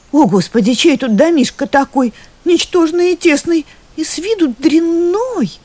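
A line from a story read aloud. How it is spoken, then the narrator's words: Exclaiming. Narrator (Russian): королевна воскликнула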